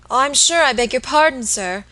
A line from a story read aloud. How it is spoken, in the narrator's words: exclaimed the little woman, seeing that she had made some awful mistake